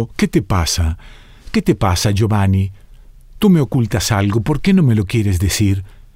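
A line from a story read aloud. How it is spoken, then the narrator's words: Pleading. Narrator (Spanish): suplicó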